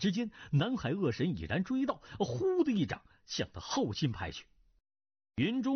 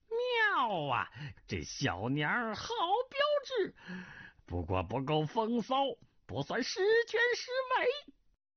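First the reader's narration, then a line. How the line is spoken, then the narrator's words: Lewd laughing. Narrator (Chinese): 不禁一呆，淫笑道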